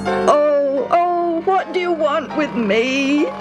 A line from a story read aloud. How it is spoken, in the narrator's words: He wailed